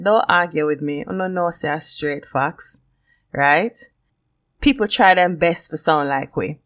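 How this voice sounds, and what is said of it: Jamaican patois accent. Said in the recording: “I'm going to do the whole episode in a patois ... I'm Jamaican ... the Jamaican accent ... we chat fast”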